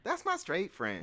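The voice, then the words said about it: Imitation of a friend's voice. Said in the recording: “I'm trying to do the voice. ... I'm trying to do the voice without doing the voice. ... You did the voice. ... Your voice does not sound like that”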